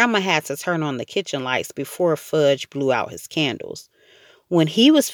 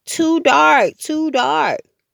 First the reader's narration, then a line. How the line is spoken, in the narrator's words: Sam cried